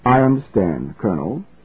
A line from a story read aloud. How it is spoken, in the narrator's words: said the secretary calmly